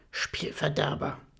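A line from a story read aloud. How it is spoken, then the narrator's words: Hissing. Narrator (German): zischt Marie ihn an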